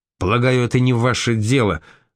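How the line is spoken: Snapping with panicky notes. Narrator (Russian): огрызнулся барон, но в голосе его прозвучали панические нотки

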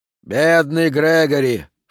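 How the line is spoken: Snorting. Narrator (Russian): фыркнул Фрок

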